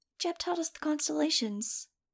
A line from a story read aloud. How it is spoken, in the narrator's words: Angel said, a little wistfully